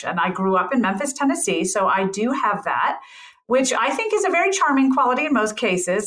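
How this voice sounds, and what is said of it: Mild Southern American sing-songy intonation. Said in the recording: “the Southern accent, I don't have a very strong one, but I do have the Southern intonation pattern, which tends to be a little more sing-songy than a lot of other regional dialects in American English”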